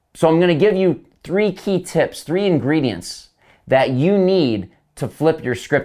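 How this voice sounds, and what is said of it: Energetic, fired-up speaking voice. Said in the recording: “I get real fired up, as you can probably tell by my voice.”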